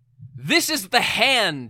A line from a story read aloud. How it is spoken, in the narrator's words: cried